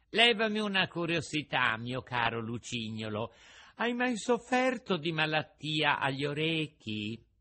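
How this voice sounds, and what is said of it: Small, sweet, fluting voice. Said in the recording (Italian): “con una vocina melliflua e flautata”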